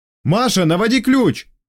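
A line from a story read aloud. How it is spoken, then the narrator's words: Yell. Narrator (Russian): Заорал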